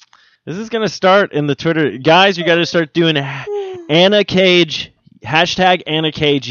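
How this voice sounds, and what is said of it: Usual voice. Nothing is said of it.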